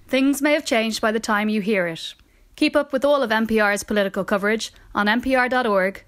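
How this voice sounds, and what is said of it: Irish accent. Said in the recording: “That is a great Irish accent.”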